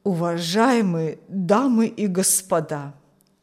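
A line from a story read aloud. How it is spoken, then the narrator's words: Old man's trembling voice. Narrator (Russian): начал старик дрожащим голосом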